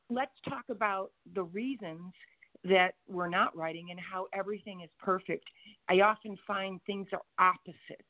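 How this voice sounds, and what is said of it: Slightly hoarse voice. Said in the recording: “my voice is a little bit hoarse”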